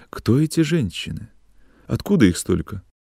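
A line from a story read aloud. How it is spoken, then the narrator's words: Timid, quiet question. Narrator (Russian): спрашивала Зиночка боязливо и тихо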